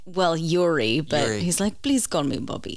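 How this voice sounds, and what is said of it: Good put-on Russian accent. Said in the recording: “cheesy, sleazy Russian ... Very good accent. Very good.”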